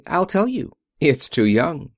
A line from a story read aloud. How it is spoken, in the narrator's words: she answered cheerfully